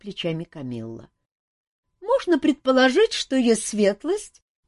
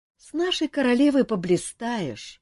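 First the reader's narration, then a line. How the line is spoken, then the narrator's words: Heavy sigh. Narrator (Russian): тяжко вздохнула маркиза Ванчир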